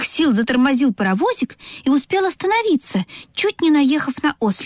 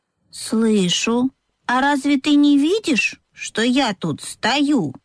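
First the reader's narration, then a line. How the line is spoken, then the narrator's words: Calm objection, donkey. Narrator (Russian): спокойно возразил ослик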